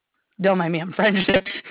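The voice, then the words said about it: French accent. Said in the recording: “you said that with a French accent.”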